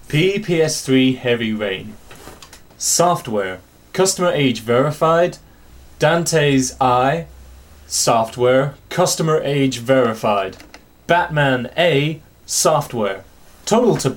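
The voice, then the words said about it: Put-on American accent. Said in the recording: “American accent”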